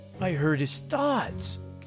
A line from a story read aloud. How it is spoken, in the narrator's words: Cody exclaimed